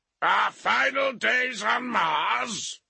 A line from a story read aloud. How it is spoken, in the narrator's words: a voice boomed from across the hangar